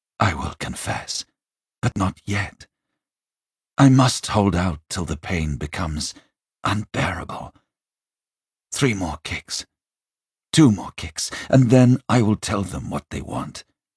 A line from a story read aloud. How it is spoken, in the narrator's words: he said to himself